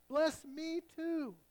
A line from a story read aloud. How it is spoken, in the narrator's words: he begged